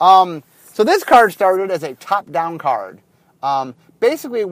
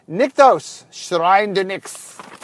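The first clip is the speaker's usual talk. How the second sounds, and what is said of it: Odd put-on accent. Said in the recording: “I have no idea what accent that was.”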